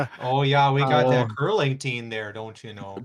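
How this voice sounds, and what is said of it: Exaggerated Minnesotan-Canadian accent. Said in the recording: “I get in trouble for my accents. ... That was not Duluth. That was not Canadian.”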